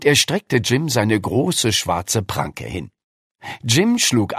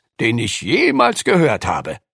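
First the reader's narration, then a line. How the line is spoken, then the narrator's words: Calling out. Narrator (German): rief Lukas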